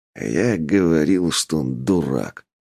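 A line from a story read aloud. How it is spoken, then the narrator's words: Didactic grumble from corner. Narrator (Russian): наставительно буркнул Ойла из угла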